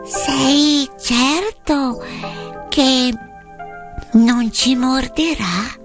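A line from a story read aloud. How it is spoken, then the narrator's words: Timid small voice. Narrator (Italian): la regina dei topi … chiese con voce timida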